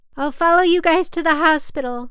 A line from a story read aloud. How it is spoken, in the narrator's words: I yelled